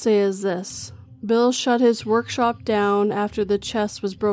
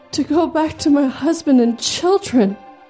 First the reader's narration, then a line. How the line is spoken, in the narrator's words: cried